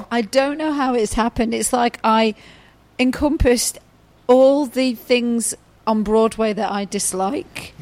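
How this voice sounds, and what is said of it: Hoarse, nearly lost voice. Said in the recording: “Clearly, ... has lost her voice. ... literally has no voice left. ... Why your voice is gone?”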